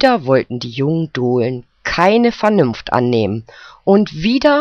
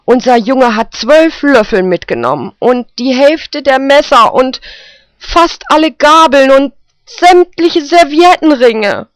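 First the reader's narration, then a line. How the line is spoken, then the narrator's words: Calling out, female. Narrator (German): rief sie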